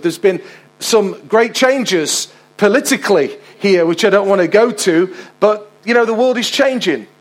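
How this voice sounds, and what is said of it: Local Mansfield English accent. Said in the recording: “I'm actually a Mansfield boy, so I was raised here for the first 18 years. That's why I've got this accent”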